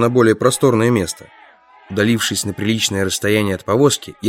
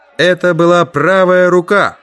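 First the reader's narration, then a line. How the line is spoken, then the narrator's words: Loud announcement. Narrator (Russian): громко объявил я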